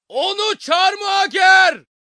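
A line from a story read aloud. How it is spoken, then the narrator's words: Crowd shouting. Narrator (Turkish): diye bağırdılar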